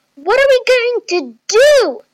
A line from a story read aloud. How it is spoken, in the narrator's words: Chloe yelled as loud as she could